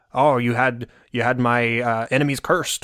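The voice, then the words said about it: Poor Barbossa impression. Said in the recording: “that was the worst Barbossa impression I've ever heard”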